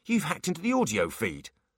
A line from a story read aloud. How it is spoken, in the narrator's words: said Foley sharply